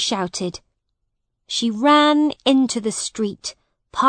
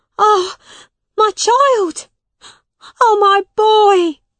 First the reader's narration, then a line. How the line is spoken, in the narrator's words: she cried